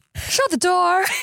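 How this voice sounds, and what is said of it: Sophisticated transatlantic lady voice. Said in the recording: “If we were in a transatlantic movie... This is such a good voice you're doing... not one that's like so sophisticated. I've never heard you like be a lady like that.”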